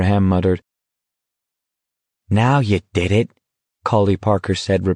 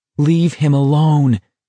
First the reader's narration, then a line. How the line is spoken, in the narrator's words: Garrity screamed out in his mind